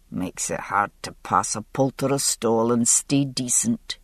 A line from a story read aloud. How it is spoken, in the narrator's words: he murmured in my ear